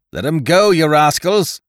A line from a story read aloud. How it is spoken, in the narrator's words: he cried